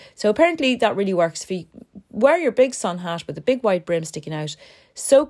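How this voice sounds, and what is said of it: Usual voice. Nothing is said of it.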